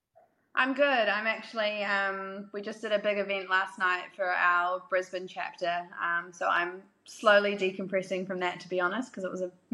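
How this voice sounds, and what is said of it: New Zealand accent. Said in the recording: “she has a Kiwi accent. ... she is Kiwi and not Australian”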